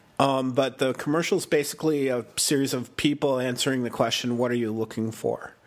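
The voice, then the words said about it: Sick, funny-sounding voice. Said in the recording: “my voice sounds funny ... I have a cold”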